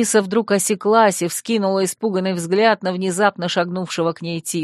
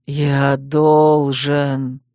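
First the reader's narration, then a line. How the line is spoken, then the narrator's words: Almost moaned, carried away. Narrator (Russian): забывшись, почти простонал Териньель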